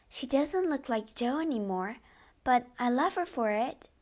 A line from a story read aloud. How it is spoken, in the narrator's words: Beth said softly